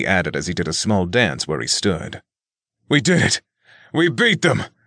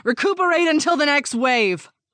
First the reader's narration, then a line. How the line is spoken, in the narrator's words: Elizabeth shouted